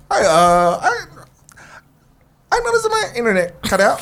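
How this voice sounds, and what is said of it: Put-on cartoonish alien voice. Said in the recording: “call back with an accent... what is that accent?... Is that Marvin the Martian?... It's alien.”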